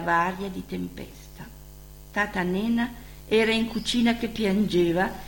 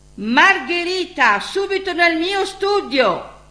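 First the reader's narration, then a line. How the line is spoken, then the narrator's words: Booming big voice. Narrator (Italian): il suo vocione tuonò dall'atrio del palazzo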